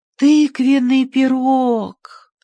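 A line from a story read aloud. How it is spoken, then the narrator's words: Dreamy drawl. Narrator (Russian): мечтательно протянула Ани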